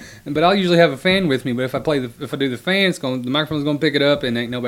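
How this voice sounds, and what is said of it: Usual voice. Nothing is said of it.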